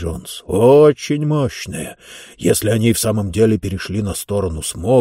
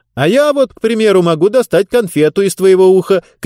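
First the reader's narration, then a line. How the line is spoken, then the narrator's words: Shouted from a distance. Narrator (Russian): крикнула Роза из своей кабины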